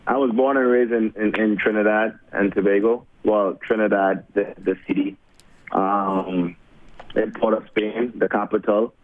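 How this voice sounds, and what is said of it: Noticeable foreign accent. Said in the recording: “I'm sure people hear the accent and they might be guessing where you're from”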